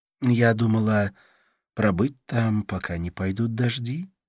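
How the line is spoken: Soft, gentle reply. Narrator (Russian): ответила она мягко

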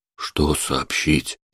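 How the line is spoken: Quiet reply. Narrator (Russian): тихо отозвался Курчавый

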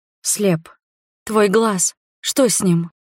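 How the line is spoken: Frightened whisper. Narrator (Russian): испуганно прошептала я

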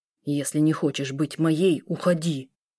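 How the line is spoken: Restrained, through gritted teeth. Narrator (Russian): Процедил сквозь зубы, сдерживая себя

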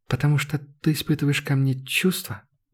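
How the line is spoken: Girl's barely audible voice. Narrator (Russian): Голос девушки прозвучал едва слышно

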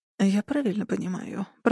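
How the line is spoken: Muttered. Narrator (Russian): пробормотал Джек

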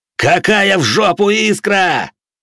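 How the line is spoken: Roar. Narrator (Russian): взревел я

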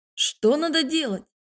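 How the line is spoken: Dragon's shout. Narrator (Russian): выкрикнул один из драконов

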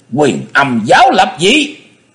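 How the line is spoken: Hissing shriek. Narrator (Vietnamese): nhị đầu thái tử rít lên

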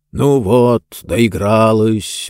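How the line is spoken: Grumpy grumble. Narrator (Russian): брюзгливо проворчал

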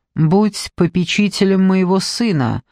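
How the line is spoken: Plain. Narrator (Russian): сказал Тысячеликий

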